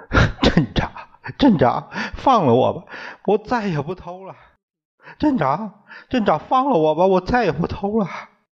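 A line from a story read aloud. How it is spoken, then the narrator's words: Crying, pleading. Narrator (Chinese): 哭着磕着头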